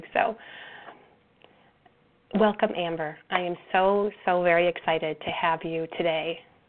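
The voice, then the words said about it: Voice sounds unwell, still recovering. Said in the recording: “You can hear in my voice, too, that I'm recovering from something this week.”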